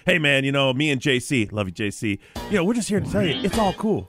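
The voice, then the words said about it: Enthusiastic youth minister character voice. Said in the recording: “your Pastor Todd impersonation ... has his impersonation of like a bunch of youth ministers ... Pastor Todd's just really enthusiastic”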